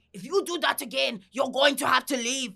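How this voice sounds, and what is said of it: Put-on French accent. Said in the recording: “my bad French accent ... pretty good to me”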